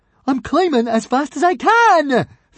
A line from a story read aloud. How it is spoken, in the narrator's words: Fishlegs shouted back up indignantly